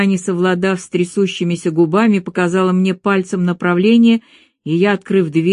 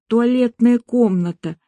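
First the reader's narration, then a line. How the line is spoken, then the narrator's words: Nauseous hoarse wheeze. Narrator (Russian): Ощутив порывы к извержению желудка, я прохрипела, обращаясь к Елене Глебовне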